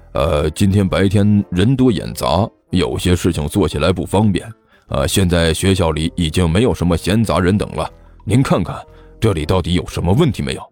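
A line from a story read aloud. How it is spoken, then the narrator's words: Serious, deep voice. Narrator (Chinese): 徐主任一脸严肃地沉声解释道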